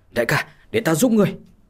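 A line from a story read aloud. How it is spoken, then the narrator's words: Loud shout. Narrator (Vietnamese): lớn tiếng mà quát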